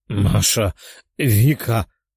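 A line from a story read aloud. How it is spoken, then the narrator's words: Hoarse rasp. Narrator (Russian): прохрипел он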